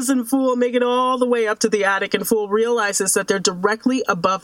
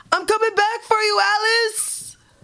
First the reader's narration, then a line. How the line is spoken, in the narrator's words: Fool we hear him yell